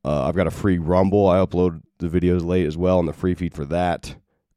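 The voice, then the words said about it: Rough, sick-sounding voice. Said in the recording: “my voice sounds like trash because it is. Uh, I caught yet another virus of some kind.”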